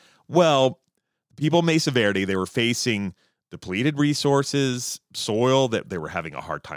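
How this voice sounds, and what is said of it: Usual voice. Nothing is said of it.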